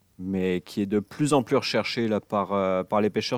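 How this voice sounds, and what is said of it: French from France accent. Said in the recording (French): “Puis parlant d'Europe, là, j'entends, j'entends ton accent. Es-tu, euh, es-tu né là-bas? ... Oui, je suis un, un, un, français”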